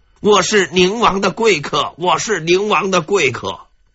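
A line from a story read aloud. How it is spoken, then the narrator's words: Loud silly chanting. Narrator (Chinese): 傻笑 高呼口号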